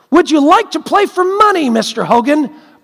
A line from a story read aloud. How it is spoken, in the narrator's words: blurted out Charlie